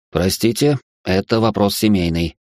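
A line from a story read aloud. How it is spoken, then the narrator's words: Cold lawyer's reply. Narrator (Russian): холодно ответил адвокат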